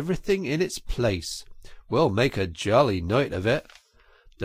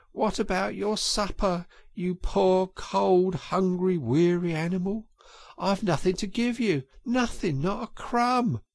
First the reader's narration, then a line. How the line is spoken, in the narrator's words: he moaned